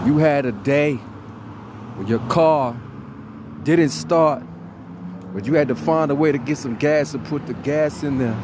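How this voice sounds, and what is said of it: Regional accent. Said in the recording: “Excuse my accent, if you know me, you know where I'm from. ... I pronounce the words the way that I pronounce it.”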